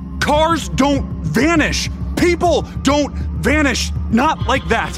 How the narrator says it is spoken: When he didn't see the van, he shouted

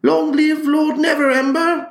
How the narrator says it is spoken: yells from the audience

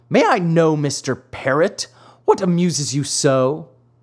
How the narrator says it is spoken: cried the marionette angrily

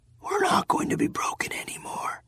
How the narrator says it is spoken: he whispered

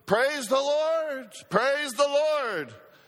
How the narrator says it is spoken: shout out

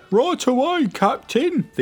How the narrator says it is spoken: the young Barty cried

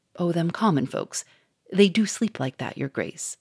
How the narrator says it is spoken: The inspector grinned and whispered scornfully

